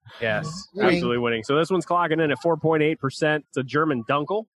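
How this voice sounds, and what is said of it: Usual voice. Nothing is said of it.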